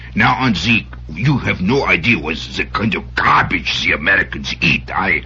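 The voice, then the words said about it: Put-on foreign accent. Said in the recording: “what accent do you want, huh?”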